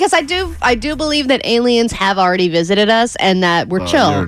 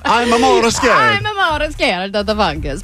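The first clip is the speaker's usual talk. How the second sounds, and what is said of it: Put-on unidentified accent. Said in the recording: “That's an offensive accent you just did. I don't know what it is offensive to”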